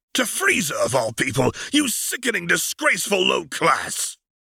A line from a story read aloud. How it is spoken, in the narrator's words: Vegeta spat